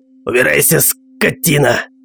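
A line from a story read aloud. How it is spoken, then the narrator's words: Creature's hiss. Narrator (Russian): зашипело какое-то существо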